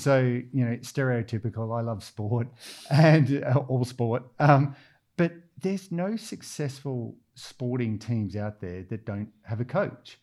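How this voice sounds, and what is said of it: Australian accent. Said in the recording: “you can tell I'm Australian from the accent.”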